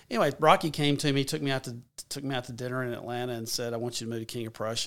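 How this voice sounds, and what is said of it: Strong regional accent. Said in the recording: “accent. Do you think this accent is going to work? ... Is going to work in Philadelphia?”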